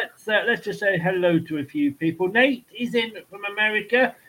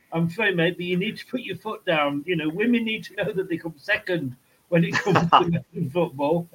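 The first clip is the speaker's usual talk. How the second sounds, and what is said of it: Impression of Joey Barton. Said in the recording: “my Joey Barton impression.”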